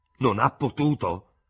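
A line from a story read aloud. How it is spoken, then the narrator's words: Shriek then lowered voice. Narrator (Italian): strillò il tenente di Hubert, poi abbassando notevolmente la voce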